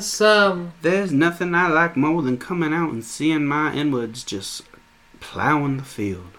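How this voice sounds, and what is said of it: Mock posh Southern US accent. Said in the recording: “the Southern accent kind of developed as a class structure. They're like,”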